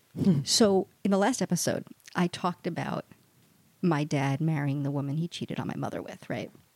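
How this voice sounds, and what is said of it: Whispering. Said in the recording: “I'm going to whisper again.”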